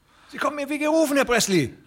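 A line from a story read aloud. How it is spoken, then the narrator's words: Calling out. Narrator (German): rief der andere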